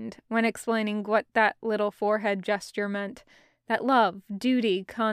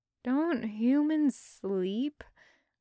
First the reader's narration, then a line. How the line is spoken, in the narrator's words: Garrick mumbled, voice heavy with tiredness